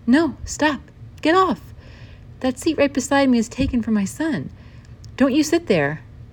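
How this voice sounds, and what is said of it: Raised, sharp voice. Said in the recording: “I did not mean to raise my voice”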